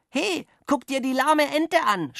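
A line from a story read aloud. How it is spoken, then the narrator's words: Shout. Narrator (German): schrie er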